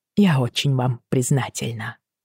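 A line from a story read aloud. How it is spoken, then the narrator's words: Hoarse voice. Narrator (Russian): ответила я хриплым голосом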